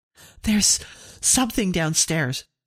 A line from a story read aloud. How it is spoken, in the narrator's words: she cried